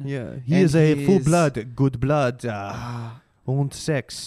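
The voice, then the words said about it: Bad put-on French accent. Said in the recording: “my French accent, very bad. Very ... mine too.”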